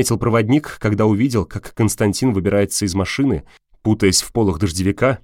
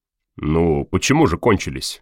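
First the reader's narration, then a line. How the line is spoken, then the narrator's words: Calm smiling reply. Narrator (Russian): спокойно ответил полковник, улыбаясь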